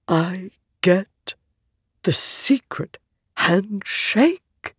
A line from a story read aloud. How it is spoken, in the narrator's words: he whispered